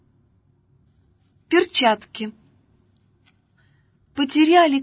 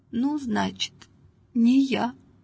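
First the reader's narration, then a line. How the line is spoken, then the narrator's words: Quiet, distraught old woman. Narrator (Russian): Старушка присела, сама не своя, и тихо сказала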